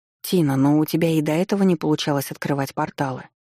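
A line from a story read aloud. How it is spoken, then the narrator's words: Soft. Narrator (Russian): произнесла я мягко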